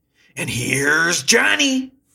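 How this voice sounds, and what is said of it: Impression of Johnny Carson's show announcer. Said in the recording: “my best impression of Johnny Carson's show”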